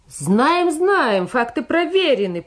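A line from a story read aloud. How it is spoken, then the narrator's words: Smug shout. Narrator (Russian): прокричал комсорг, наслаждаясь собственной осведомленностью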